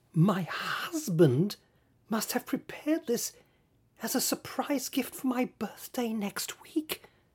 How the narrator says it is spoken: whispered

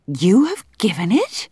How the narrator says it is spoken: exclaimed Oblonsky behind Vronsky

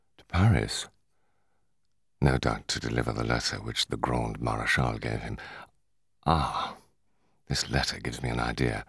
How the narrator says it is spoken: in a low tone he added

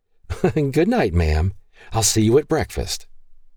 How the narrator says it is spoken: Mava laughed, and said

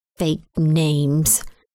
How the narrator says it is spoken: Evelyn muttered

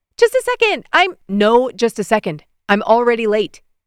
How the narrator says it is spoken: he barked

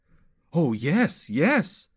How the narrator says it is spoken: exclaimed Yechiel, unable to contain his excitement

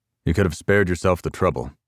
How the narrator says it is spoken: he said in a flat tone

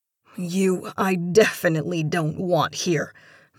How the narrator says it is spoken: Marcia spat bitterly

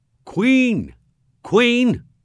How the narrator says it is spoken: they were shouting here and there and now and then

